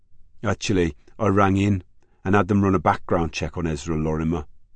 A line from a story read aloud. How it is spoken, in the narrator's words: said Kevin